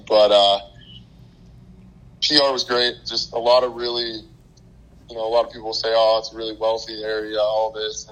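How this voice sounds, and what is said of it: Hoarse, partly lost voice. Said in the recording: “My voice is a little gone today”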